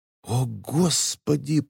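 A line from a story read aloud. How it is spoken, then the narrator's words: Whisper. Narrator (Russian): прошептала Элис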